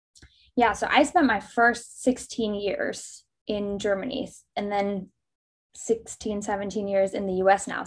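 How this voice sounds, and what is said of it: German accent. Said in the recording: “being German ... aside from the accent”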